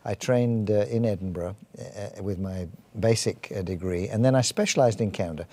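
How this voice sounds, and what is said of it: English accent. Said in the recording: “I'm English, as you probably can tell from my accent.”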